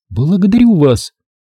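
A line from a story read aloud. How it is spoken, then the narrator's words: Timid babble in French. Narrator (Russian): пролепетала владелица камеры по-французски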